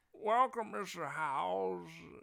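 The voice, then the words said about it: Jimmy Stewart impression. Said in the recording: “How do you do Jimmy Stewart?”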